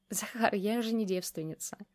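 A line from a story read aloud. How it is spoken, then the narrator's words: Giggling. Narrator (Russian): хихикнула Юлька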